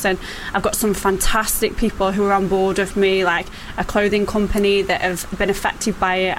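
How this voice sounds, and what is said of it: Northern English accent. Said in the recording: “It's an northern accent”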